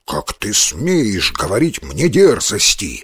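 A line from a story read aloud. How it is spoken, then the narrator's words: Growl. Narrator (Russian): зарычал тигр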